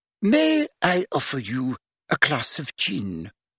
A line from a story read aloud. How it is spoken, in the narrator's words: She said in an extra refined voice